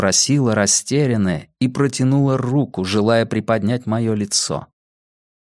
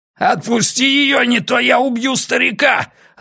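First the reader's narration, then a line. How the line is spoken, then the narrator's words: Yelling guard. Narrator (Russian): орал стражник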